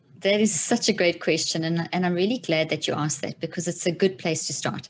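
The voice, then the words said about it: South African accent. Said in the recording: “that South African accent”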